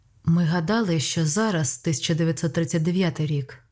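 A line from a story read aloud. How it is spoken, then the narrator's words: Even, composed voice. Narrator (Ukrainian): сказав Дон Денні врівноваженим голосом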